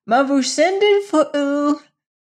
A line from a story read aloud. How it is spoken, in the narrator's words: cried Fay